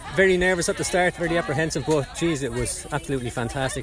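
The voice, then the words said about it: Slight Irish lilt. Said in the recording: “I can detect a bit of a lilt there ... With an Irishman”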